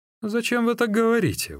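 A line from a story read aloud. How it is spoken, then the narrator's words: Exclaiming. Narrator (Russian): воскликнул Сунцзян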